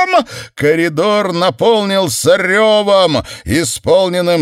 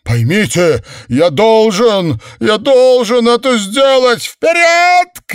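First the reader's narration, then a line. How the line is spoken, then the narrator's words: Shout. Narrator (Russian): крикнул Себастьян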